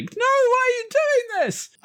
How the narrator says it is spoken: the little girl screams, not in pain, but like

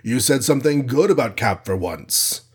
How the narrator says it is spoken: rumbled Goliath, half accusingly

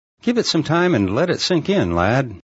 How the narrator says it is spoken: Shadow laughed

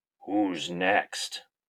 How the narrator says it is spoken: In a gravelly voice, calls out

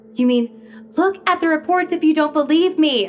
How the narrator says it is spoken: Ruthie yelled

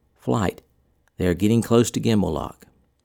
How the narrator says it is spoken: Willoughby, in a hushed but forceful voice, would call

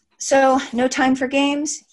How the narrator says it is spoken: he sighed

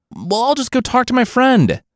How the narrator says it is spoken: Monkey cried out

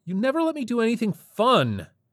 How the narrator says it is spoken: he shouted

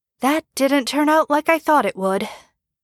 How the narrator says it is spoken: Jeff sighs

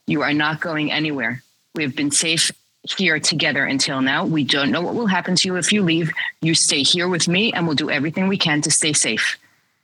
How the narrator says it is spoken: very calmly said to him and assertively, she said

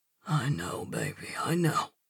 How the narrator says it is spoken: he whispers

